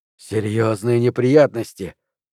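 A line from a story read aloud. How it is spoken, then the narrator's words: Hoarse wheeze. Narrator (Russian): прохрипел Дэн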